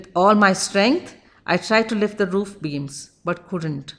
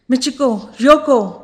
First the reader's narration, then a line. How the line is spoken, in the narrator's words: cried in horror